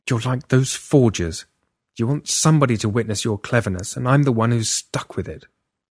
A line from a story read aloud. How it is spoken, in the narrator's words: Bitterly, I said